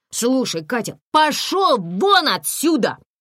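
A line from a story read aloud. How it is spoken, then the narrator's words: Yelling. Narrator (Russian): заорала Комарова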